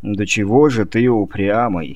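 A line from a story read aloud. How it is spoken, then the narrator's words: Rueful sigh. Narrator (Russian): сокрушенно вздохнул мистер Каперони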